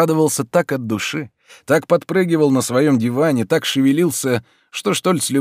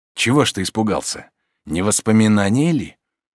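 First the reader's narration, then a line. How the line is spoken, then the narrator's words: Quiet, almost tender. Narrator (Russian): тихо, почти нежно прибавил Штольц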